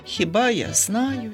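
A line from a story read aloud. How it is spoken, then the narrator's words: Sigh. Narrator (Ukrainian): зітхнув Ромчик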